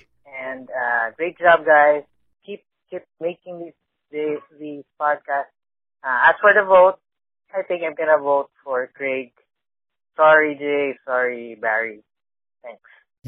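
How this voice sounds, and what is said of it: Filipino accent. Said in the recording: “a nice, sexy Filipino accent”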